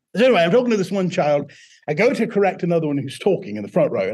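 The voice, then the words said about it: British-sounding accent. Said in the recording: “a British accent because it was so bad. And now I'm stuck with it.”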